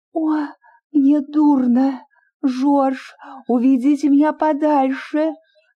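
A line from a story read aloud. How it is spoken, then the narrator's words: Moaning, faint. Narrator (Russian): застонала Лили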